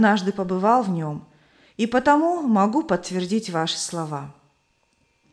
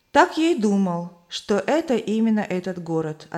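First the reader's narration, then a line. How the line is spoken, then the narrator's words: Plain. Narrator (Russian): ответил я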